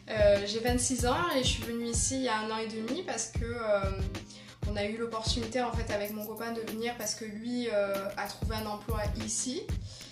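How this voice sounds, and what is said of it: Sing-song southern French Marseille accent. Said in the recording (French): “je suis marseillaise, je viens du sud, hein, vous pourrez l'entendre mon petit accent en chantant”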